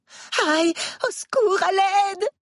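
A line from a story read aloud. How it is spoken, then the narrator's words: Screaming while rolling on floor. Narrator (French): hurle-t-elle en se roulant par terre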